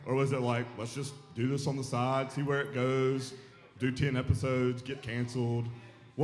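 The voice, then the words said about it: Deep voice. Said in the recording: “such a deep voice ... drunken horse voice all the time ... I do sound terrible”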